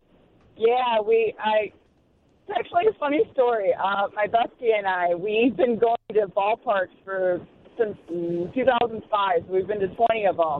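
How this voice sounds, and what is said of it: Hoarse, nearly lost voice. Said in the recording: “I lost my voice.”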